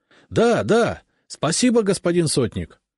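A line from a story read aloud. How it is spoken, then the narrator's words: Joyful clamoring crowd. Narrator (Russian): загомонили просители, радостно улыбаясь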